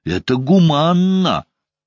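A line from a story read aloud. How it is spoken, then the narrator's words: Shouting into phone. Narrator (Russian): выкрикнул я в трубку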